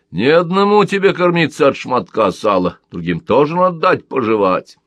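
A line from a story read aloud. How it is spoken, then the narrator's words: Rude reply. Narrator (Russian): грубо ответил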